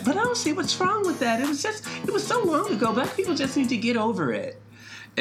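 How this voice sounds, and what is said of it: Mocking impression of a white man. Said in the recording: “what was that voice? ... do that again. Oh, that was actually pretty. ... It was pretty accurate. ... That's my white man and impression.”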